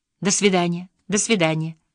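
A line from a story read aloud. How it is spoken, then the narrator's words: Soft voice. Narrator (Russian): мягким голосом говорил Кролевский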